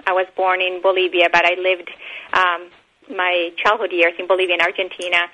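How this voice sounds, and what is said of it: South American accent. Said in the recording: “you may have noticed um, my accent. I am from uh, South America.”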